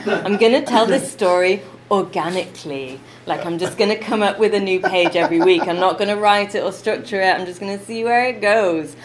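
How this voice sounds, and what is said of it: Put-on American accent, done badly. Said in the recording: “you fell into an American accent. ... No, but it was so bad. It was so bad.”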